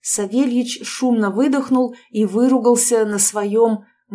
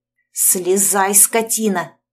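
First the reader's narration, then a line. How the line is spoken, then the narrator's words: Hiss. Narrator (Russian): прошипела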